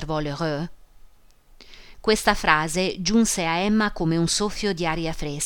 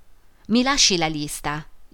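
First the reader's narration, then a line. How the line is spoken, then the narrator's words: Plain. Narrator (Italian): disse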